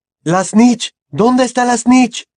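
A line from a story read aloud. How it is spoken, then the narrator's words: Shouting from a distance. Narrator (Spanish): gritó Charlie desde su lugar en la fila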